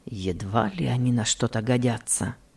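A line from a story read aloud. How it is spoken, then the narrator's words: Father mumbling. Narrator (Russian): пробормотал отец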